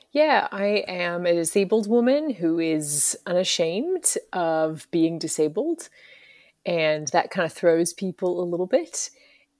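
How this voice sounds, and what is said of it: Mixed Australian, American and British accent. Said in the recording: “I'm from Brisbane, Australia, originally, and I've also lived over here in the States for quite a few years now. I've lived in London as well. So my accent ... every other word you can hear a different part of my story”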